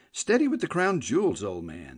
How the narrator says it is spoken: said Tuppy anxiously

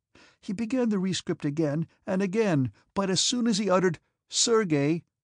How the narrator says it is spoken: he sobbed, tears

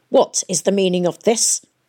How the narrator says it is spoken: barked Dr

